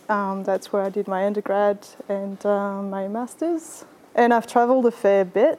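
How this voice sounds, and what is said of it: French accent. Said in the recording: “you might have picked up from my accent that I was born in France.”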